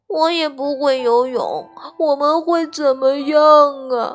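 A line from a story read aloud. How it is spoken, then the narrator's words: Crying child. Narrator (Chinese): 棘龙宝宝哭着说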